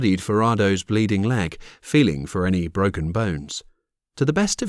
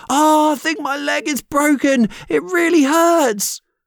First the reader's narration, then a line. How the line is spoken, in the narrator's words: Screaming out in pain, he cried